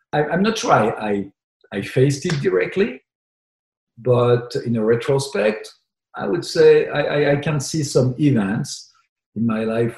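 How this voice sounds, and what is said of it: Strong, charming foreign accent in English. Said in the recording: “my accent was too strong. Although very charming, but too strong”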